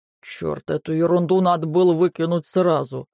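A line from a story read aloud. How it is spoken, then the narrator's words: Muttered under breath. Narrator (Russian): Он буркнул себе под нос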